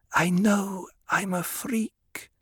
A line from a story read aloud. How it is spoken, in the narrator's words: Aaliyah whispered